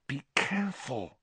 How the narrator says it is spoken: hissed Hermione

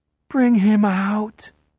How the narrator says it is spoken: Tansy pleads

